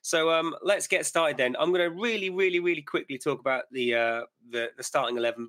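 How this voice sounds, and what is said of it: Slightly croaky voice. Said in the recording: “my voice is a little croaky today, not feeling 100%”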